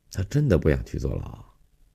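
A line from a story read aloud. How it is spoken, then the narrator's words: Weary sigh. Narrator (Chinese): 他满脸疲乏地叹了一口气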